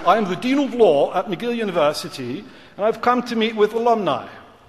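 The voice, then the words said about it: Put-on British accent. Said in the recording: “in my best British accent”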